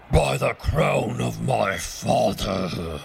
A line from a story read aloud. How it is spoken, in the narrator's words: roared the king